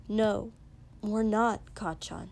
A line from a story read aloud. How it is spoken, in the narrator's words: Izuku said firmly